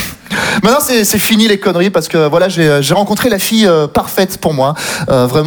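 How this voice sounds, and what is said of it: Usual voice. Nothing is said of it.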